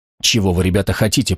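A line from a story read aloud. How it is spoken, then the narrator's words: Whisper. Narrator (Russian): прошептал Стоун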